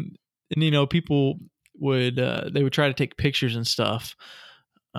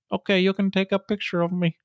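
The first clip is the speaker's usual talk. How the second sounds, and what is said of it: Put-on accent voicing Robert the doll. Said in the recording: “What accent? Was that a Key West accent? ... Robert has an accent that just transcends the Key West and the United States”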